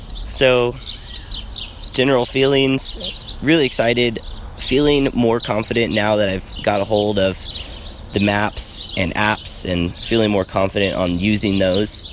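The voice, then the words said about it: Congested voice with a cold. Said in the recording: “I don't know if you can tell from my voice, but I have a cold.”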